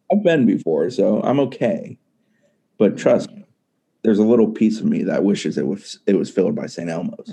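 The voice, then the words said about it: Sad, bummed-out voice. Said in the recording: “hear the bumminess in his voice?... He sounds legit sad. Like he's trying not to... He's so sad.”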